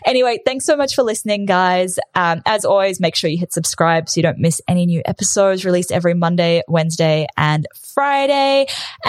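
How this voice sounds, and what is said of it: Rambling, very fast speech. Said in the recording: “I have had 3 coffees today, so that might be why I'm so rambly and probably why I'm talking so fast as well.”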